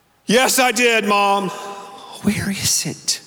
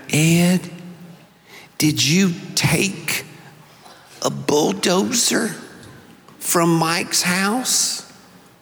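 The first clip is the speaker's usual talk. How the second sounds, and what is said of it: Mississippi Southern accent. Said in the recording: “she said in her Mississippi accent”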